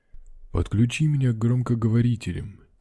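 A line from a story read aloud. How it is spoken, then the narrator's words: Quiet. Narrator (Russian): тихо сказал Пруф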